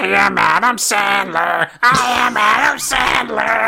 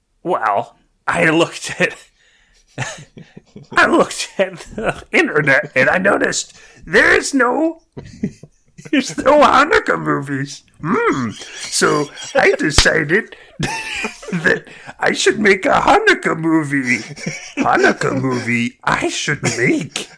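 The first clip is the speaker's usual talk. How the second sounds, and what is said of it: Yoda impression. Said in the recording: “Adam Sandler does an amazing Yoda impression. ... that was me doing a Yoda voice.”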